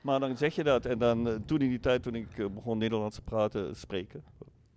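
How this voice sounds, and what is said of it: Foreign accent in Dutch. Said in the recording (Dutch): “krijg je ook nooit weg, die accent... dan zeggen mensen tegen mij, kom je uit België?... jouw accent herkent als Vlaams”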